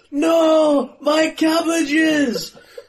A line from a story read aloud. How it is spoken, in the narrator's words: he shouts